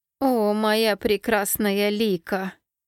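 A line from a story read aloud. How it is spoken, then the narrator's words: Oily drawling voice. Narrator (Russian): елейным голосом протянул он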